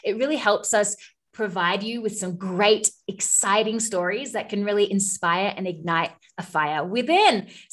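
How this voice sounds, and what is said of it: Australian accent. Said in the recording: “I'm Australian ... if my accent gets a little bit more Australian”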